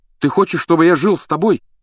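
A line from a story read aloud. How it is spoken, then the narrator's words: Exclamation. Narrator (Russian): воскликнул он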